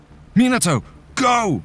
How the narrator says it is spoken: he shouted

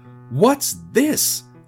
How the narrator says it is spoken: exclaimed, finally allowing his annoyance to bubble out

